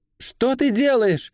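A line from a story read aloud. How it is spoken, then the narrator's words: Yelling. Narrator (Russian): заорала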